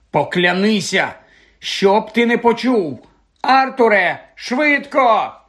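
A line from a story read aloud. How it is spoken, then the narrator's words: Shouted. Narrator (Ukrainian): закричала місіс Уізлі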